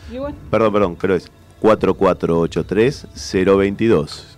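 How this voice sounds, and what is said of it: Announcer-style radio voice. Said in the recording (Spanish): “Voz de locutor.”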